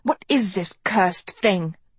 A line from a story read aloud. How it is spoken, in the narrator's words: she murmured, diadem now somehow in her mouth